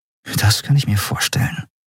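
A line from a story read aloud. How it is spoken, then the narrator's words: Murmur. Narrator (German): murmelte Endriel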